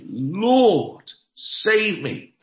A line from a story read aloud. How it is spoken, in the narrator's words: beginning to sink, he cried, saying